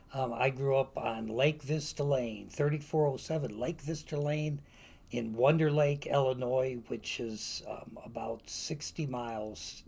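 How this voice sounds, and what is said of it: Slight Wisconsin accent. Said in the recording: “Thus the accent. ... Yeah, you got a got a note of Wisconsinite in you.”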